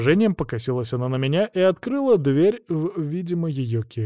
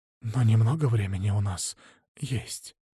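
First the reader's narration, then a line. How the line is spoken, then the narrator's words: Breathy exhale. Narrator (Russian): выдохнула она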